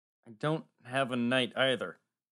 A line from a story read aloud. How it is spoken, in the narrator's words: Max said miserably